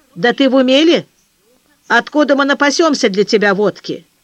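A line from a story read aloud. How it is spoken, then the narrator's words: Stern. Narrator (Russian): Петр Петрович строго сказал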